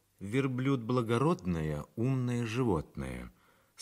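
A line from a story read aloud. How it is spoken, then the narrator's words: Plain. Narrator (Russian): сказала Бернара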